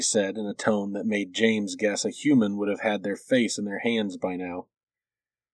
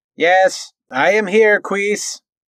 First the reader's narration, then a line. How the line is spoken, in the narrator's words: Moore shouted back towards the corridor